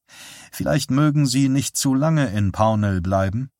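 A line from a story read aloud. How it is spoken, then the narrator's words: Plain. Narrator (German): sagte Dave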